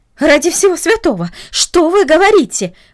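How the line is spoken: Exclaim. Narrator (Russian): воскликнула она

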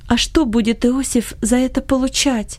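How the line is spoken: Timid mother asking. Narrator (Russian): робко спросила его мать

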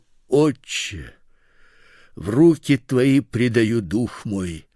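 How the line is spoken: Loud cry. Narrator (Russian): Иисус, возгласив громким голосом, сказал

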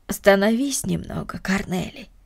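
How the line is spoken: Tender. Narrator (Russian): ласково сказала Марта

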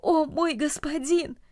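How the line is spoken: Exclamation. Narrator (Russian): Ричард воскликнул

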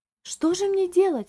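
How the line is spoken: Agitated exclamation, lady. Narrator (Russian): взволнованно воскликнула дама

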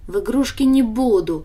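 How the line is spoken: Snorting. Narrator (Russian): фыркнула Даша

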